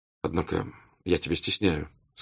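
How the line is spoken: Quiet. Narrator (Russian): сказал он ему тихо

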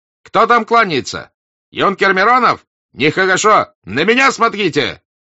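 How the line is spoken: Shout. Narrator (Russian): закричал Денисов

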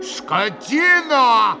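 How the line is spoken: Yelling. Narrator (Russian): заорал было пан Врублевский

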